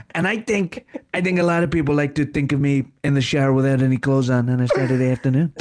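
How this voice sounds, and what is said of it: Imitates another person's voice. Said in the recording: “It's Kerry Godliman and Donald Trump here”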